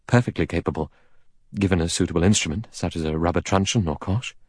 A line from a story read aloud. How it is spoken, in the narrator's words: The doctor said calmly